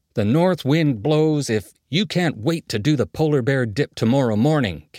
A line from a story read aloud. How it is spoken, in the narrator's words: Ken yelled